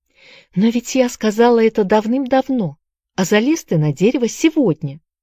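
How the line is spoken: Astonished exclamation. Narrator (Russian): с изумлением воскликнула Энн

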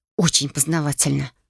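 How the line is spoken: Muttered, still cold. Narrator (Russian): буркнула я, все еще не в силах согреться

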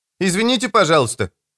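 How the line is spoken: High-pitched voice. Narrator (Russian): произнес кто-то высоким голосом

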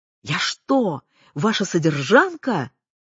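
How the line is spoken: Shouting woman. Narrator (Russian): кричала

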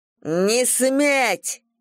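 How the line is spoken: Loud and furious. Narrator (Russian): Громко, яростно

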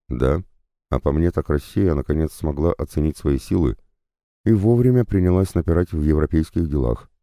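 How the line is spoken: Calm reply. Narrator (Russian): спокойным тоном отвечал ему Уитворд

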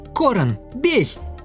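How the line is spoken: Shout. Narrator (Russian): она крикнула

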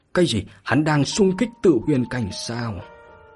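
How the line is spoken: Shocked gasping elders. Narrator (Vietnamese): Các trưởng lão Viêm Thần Điện hít vào một hơi khí lạnh, ánh mắt đầy sự chấn kinh không kìm được thốt lên

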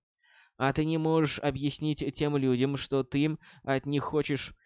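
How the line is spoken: Soft inquiry, witch. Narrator (Russian): мягко поинтересовалась ведьма

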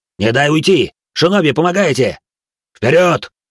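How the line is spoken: Matching, stimulant-fuelled bark. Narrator (Russian): в тон ему рявкнул Бенджиру, проглотивший сразу тройную дозу стимулятора

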